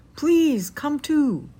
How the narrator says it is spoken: cried

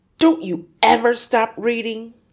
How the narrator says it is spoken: he snapped at her

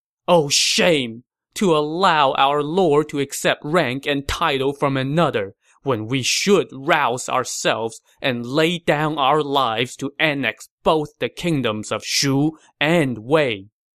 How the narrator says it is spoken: a man behind the carriage began to cry, shouting

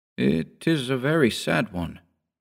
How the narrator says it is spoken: I murmured, scarcely knowing what to answer

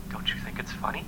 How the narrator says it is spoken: He whispered in my right ear

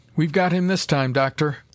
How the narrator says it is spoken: cried Carnes in exultation

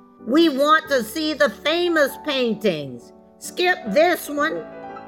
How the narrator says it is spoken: a voice in the back of the room shouted

